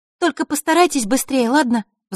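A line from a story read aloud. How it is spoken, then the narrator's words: Anxious, urgent parting words. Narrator (Russian): взволнованно напутствовала фея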